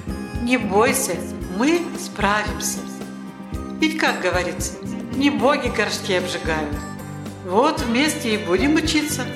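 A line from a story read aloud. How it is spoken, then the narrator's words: Calm reply. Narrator (Russian): Денис спокойно ответил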